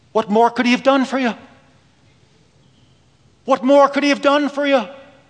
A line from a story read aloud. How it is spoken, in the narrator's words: in her broken Irish accent, she said